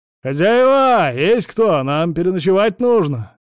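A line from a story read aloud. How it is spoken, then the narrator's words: Loud carrying shout. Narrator (Russian): крикнул, и его голос разнесся по всей улице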